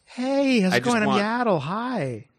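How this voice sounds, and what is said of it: Valley Girl character voice. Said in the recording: “She's got a Valley Girl accent ... She talks like Janice from the Muppets.”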